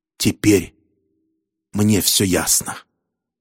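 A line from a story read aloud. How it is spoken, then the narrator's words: Hissing. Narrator (Russian): догадавшись, что детектив его не понял, гангстер прошипел по-английски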